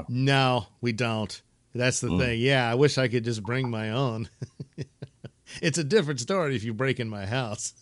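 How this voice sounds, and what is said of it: Southern bayou accent. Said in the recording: “Now I hear that bayou accent coming out.”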